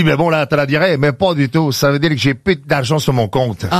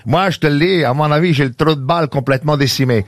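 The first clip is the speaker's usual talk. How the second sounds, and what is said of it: Put-on Québécois French accent. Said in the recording (French): “les expressions québécoises ... Mais pourquoi tu l'as fait avec l'accent exactement?”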